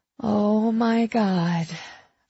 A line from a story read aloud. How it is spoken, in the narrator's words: breathed, my heart breaking more than a little